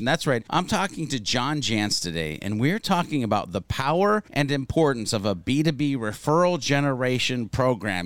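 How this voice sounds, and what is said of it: Rich, polished radio announcer voice. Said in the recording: “You've got such a great, beautiful radio voice.”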